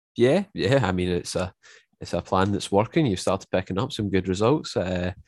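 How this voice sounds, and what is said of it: Scottish accent. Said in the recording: “by my accent, obviously I live up in Scotland”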